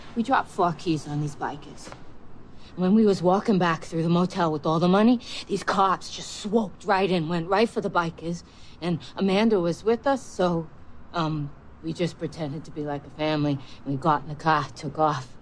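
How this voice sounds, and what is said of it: Convincing put-on Boston accent. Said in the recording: “Unbelievable accent. How long did it take you to nail that Boston, that certain part of Boston, too, accent?”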